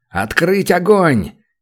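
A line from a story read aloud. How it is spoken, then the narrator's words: Shouted over radio. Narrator (Russian): крикнул в эфир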